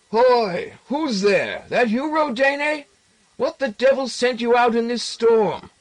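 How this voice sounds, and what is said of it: Strong shouting old man's voice. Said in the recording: “shouting from the front room in his unexpectedly strong voice”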